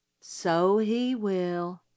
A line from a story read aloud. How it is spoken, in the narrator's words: said Jim gloomily